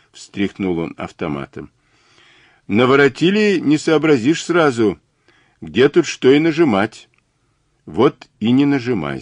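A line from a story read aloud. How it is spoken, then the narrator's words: Plain. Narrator (Russian): сказал Мазур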